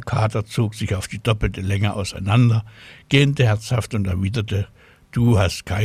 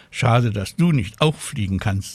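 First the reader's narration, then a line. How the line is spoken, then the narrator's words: Plain. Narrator (German): sagt Tinchen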